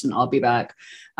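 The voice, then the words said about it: Arnold Schwarzenegger impression. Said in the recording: “put on my best Arnie voice”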